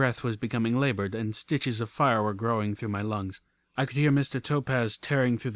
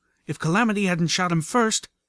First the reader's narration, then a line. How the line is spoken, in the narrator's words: Velvet cried out as she ran for her life